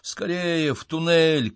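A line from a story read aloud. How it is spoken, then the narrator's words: Shouted. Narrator (Russian): крикнул я своим спутникам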